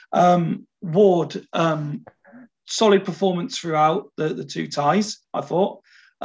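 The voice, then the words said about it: Strained, failing voice. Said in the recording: “my voice is beginning to go again. I've been struggling with this for days.”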